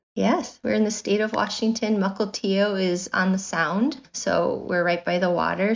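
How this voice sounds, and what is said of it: American accent. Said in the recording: “people will hear your accent ... we've gone stateside with this episode”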